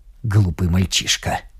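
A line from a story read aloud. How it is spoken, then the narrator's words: Muttered. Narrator (Russian): пробормотал барон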